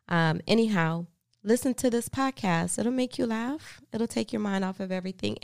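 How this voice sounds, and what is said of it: Sick, fluctuating voice. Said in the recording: “I've been sick a little bit. So sometimes my voice is going to have these fluctuations because of my upper respiratory illness.”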